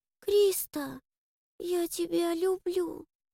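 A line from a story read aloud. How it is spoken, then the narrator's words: Timid muffled whisper. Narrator (Russian): недоверчивая, запуганная Мира тихо прошептала мне в подмышку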